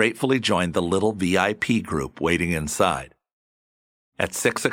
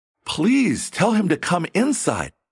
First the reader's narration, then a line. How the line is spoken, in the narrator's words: he exclaimed with real concern